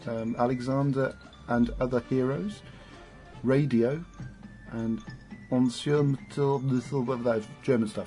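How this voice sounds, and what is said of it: Put-on French accent. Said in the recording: “I did it in French accent.”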